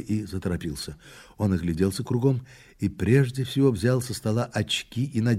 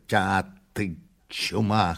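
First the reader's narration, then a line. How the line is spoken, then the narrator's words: Hoarse grunt. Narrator (Russian): хрипнул князь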